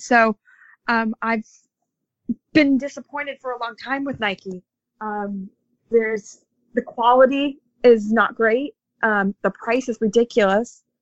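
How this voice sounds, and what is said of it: American accent. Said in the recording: “as you guys can all tell from my accent, I'm an American”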